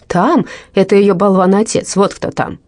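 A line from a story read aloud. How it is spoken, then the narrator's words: Shouting. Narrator (Russian): закричал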